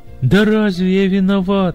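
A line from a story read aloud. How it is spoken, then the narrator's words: Moaning. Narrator (Russian): стонал жених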